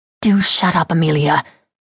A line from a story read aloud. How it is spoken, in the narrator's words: Bridget said through gritted teeth